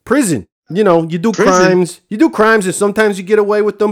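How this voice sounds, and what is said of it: Northeast US, New Jersey accent. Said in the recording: “Where's that accent I'm hearing from? ... Sounds like northeast United States. ... Jersey.”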